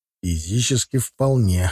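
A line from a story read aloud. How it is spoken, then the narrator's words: Hoarse young man. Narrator (Russian): хрипло ответил парень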